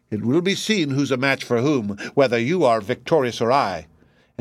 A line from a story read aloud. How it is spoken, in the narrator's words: the wizard scornfully uttered the words